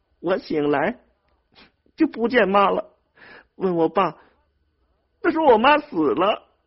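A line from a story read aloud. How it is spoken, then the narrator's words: Sobbing harder. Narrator (Chinese): 猫蛋哭得更伤心了，说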